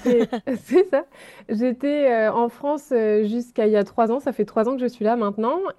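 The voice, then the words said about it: French accent from France. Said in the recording (French): “tu étais en France juste avant ... vous allez le voir dans mon accent.”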